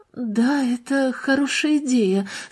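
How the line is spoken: Quiet, embarrassed agreement. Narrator (Russian): согласилась Марианна тихим и смущенным голосом

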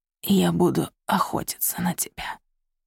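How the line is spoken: Whisper. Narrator (Russian): прошептал он

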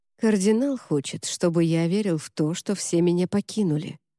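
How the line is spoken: Quiet. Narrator (Russian): тихо сказал

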